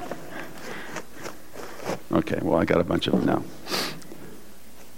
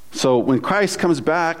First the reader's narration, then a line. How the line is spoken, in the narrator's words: he shouts